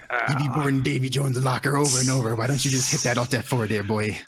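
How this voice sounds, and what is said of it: Put-on pirate accent. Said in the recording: “your pirate accent”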